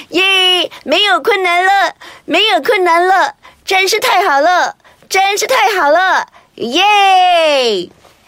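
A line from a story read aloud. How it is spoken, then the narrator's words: Joyful loud singing. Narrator (Chinese): 他们两个可高兴得很呢，高声的唱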